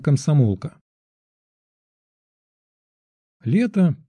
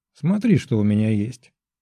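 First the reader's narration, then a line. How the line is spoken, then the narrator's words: Quiet laughing voice. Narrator (Russian): сказала тихонько со смехом официантка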